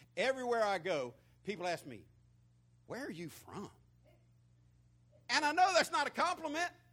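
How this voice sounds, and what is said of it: Strong rural hillbilly-sounding accent. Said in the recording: “where did this hillbilly come from? ... how in the world did you develop that accent?”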